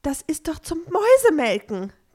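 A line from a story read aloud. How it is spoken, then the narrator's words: Shrieking. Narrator (German): kreischte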